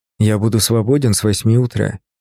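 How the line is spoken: Plain. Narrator (Russian): наконец ответил он

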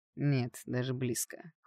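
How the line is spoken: Cold curt reply. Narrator (Russian): холодно бросил воробушек

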